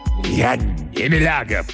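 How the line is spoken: Growl. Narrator (Russian): прорычал профессор Мейер

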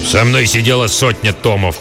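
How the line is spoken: Old man growling. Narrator (Russian): прорычал старый

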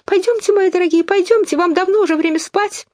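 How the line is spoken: Trembling small voice, hurrying. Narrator (Russian): канарейка дрожащим голоском стала торопить своих птенцов

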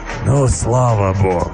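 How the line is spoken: Beast's joyful exhale. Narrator (Russian): Радостно, как мне показалось, выдохнул зверь

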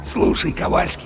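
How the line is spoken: Conspiratorial whisper in ear. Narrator (Russian): заговорщически прошептал в самое ухо третьего сержанта Чарли

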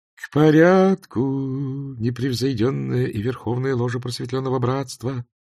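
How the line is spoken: Chanting. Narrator (Russian): нараспев промолвил верховный магистр

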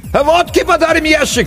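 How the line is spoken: Distant shout. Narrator (Russian): крикнули оттуда

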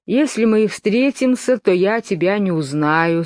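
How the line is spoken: Bored. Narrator (Russian): сказал Пустик Дутик скучным голосом

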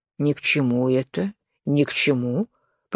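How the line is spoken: Grumbled. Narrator (Russian): проворчал лягух

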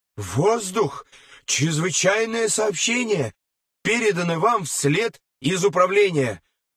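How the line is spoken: Frightened speech. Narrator (Russian): испуганно говорил лейтенант

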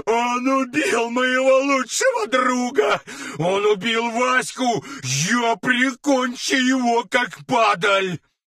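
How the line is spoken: Sobbing outburst. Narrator (Russian): рыдал он самыми настоящими слезами

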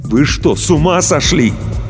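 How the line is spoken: Barely restrained shout. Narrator (Russian): Иван с трудом сдерживался, чтобы не закричать

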